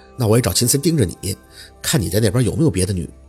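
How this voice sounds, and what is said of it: Quiet, soft-spoken reply. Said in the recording (Chinese): “小声的回着”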